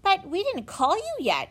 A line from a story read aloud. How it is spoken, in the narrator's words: exclaimed Benny in a surprise